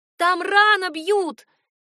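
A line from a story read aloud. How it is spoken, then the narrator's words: Shouting with full force. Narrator (Russian): крикнула я, что есть сил, надеясь, что меня услышат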